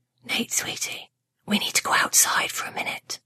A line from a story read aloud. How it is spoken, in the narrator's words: Mom whispered in his ear